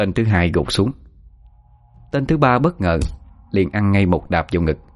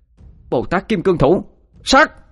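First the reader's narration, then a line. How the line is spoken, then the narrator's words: Shout. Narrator (Vietnamese): Ngọc Thanh hét lên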